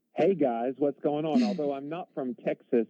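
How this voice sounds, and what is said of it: Southern US accent. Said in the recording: “I am from the southern United States ... we love your accent”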